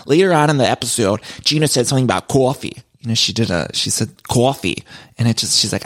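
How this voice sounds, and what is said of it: Usual voice. Nothing is said of it.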